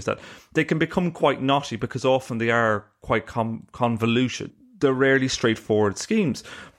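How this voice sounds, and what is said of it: Irish accent. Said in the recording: “you can tell from my accent I'm Irish”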